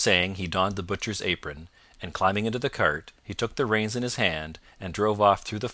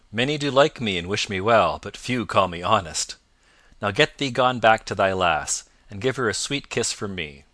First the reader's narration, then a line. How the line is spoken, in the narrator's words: quoth Robin, laughing loudly